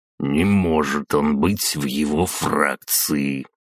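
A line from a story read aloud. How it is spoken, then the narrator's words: Mutter into mustache. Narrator (Russian): пробормотал в усы полковник Игнатов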